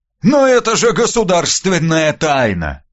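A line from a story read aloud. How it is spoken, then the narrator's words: Moaning. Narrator (Russian): простонал Иван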